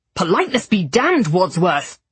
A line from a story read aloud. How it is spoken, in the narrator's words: Thomas bellowed